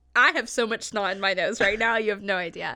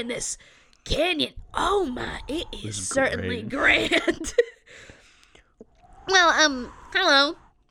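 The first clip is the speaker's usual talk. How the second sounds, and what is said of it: Overly snotty character voice. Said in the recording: “That is way too snotty, though. I'm trying to find a good middle ground. ... I don't think my voice has ever sounded like this in my entire life.”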